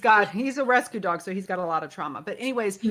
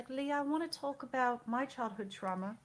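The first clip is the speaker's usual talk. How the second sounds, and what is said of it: Put-on British accent. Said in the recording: “he has a British accent.”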